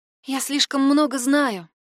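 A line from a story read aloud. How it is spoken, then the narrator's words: Sigh. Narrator (Russian): вздохнула Катя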